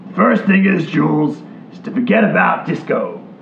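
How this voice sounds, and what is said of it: Imitates another person's voice. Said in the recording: “this can be my accent”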